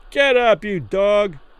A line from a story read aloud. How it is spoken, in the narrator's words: some man yelled through the ropes from behind